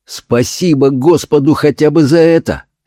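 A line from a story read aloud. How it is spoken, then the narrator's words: Heartfelt exclamation. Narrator (Russian): с чувством воскликнул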